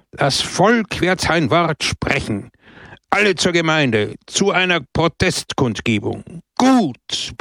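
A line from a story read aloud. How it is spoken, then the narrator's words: Crowd roaring. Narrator (German): brüllte das Volk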